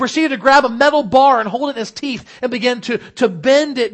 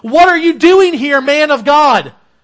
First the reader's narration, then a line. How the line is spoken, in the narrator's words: he got in his face yelling